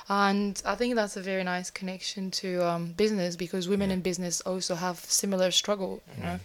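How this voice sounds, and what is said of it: Foreign accent. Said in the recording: “being a businesswoman in London, where I'm also a foreigner ... when people hear my accent”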